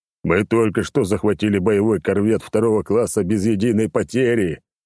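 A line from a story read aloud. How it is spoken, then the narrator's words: Booming bass. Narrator (Russian): пробасил на весь самолет Черномор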